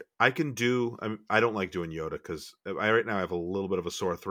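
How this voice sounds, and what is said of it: Usual voice. Nothing is said of it.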